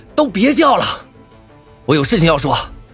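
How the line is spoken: Roaring. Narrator (Chinese): 我大吼道

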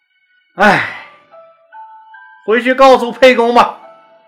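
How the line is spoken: Long sigh. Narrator (Chinese): 子婴长叹了一声

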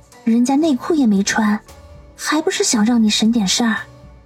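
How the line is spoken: Giggling, quiet voice. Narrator (Chinese): 杨思思嘻嘻一笑，小声说道

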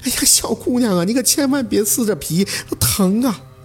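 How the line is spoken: Crying, distressed. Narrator (Chinese): 这女人心疼的直哭

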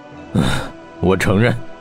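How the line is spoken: Sighing. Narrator (Chinese): 霍真叹气道

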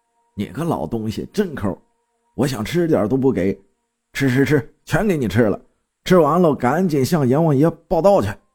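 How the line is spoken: Angry old woman muttering. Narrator (Chinese): 气得老婆子嘴里直嘟囔

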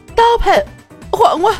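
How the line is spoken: Waiter calling to kitchen. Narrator (Chinese): 服务员又对后厨喊了一声

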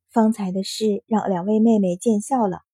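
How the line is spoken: Sighing. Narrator (Chinese): 程秋明叹了口气道

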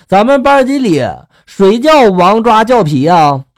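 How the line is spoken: Teacher, loud. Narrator (Chinese): 老师大声的就说了

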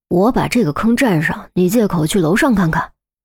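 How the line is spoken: Hushed voice. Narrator (Chinese): 郑月压低声音说

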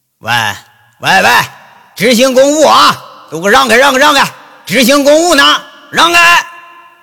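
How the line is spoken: Policeman shouting through megaphone. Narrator (Chinese): 警察脑袋来，扯着嗓子就开拿着那个喊话器，开始大声叫唤上了

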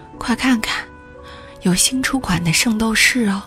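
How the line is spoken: Quiet old woman calling. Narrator (Chinese): 向来不爱说话的阿开婆婆小声的招呼

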